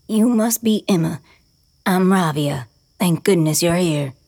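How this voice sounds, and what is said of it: Scratchy, serious old woman voice. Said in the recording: “says in a scratchy, serious voice”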